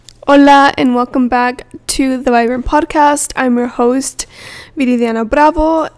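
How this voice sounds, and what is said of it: Sick-sounding voice. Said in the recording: “If you can tell from my voice, I'm recovering from being sick”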